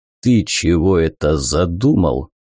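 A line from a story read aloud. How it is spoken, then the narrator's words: Boomed. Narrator (Russian): прогудел здоровяк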